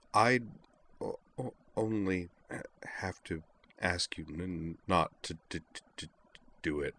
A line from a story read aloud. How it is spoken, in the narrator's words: Kate murmured